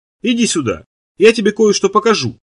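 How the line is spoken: Cheerful voice. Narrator (Russian): говорит она веселым голосом

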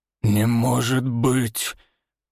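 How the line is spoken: Hoarse, voice cracking high. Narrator (Russian): хрипло выдавливает староста, и голос предательски срывается на верхней ноте

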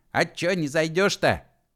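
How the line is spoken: Shouted from porch. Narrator (Russian): крикнул Егор с крыльца

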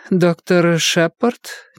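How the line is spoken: Uncertain. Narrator (Russian): неуверенно произнесла

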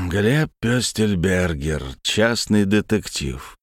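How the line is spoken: Male drawl. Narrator (Russian): протянул другой мужчина

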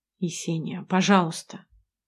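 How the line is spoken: Soft, smooth. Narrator (Russian): мягко стелет

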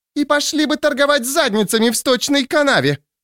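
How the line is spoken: Woman screaming. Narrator (Russian): завопила одна из шлюх

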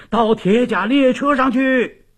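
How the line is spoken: Piercing shout over gunfire. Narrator (Chinese): 这喊声划破云霄，压倒了敌人隆隆的炮火声

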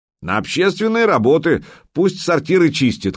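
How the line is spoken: Shout. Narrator (Russian): крикнул кто-то

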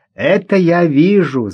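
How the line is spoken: Laughing. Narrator (Russian): засмеялся Игорь

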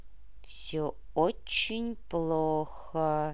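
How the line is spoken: Slow reply. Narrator (Russian): медленно ответил Егор

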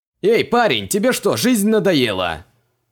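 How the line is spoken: Indignant yell. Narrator (Russian): Возмущенно заорал водитель

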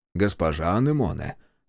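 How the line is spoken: Plain. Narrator (Russian): сказал он

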